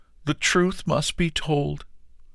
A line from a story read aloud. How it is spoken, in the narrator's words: cried the farmer